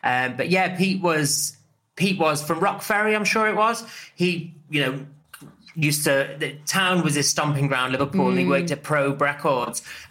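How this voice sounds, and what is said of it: Liverpool Scouse accent. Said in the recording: “I'm an honorary Scouser. Picked up the accent very, very quick when I was about 16 when I moved here.”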